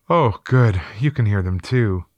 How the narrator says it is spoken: She then said with a sigh of relief

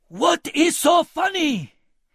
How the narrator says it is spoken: he bellowed with each blow

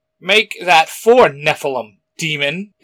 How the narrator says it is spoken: Izzy snapped

